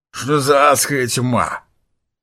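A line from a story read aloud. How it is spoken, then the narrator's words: Grumbling. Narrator (Russian): проворчал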